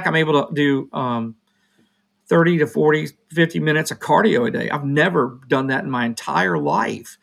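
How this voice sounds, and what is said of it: Hoarse voice. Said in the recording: “right now I'm a little hoarse because I'm going through whatever strange virus ... My voice sounds crazy, though.”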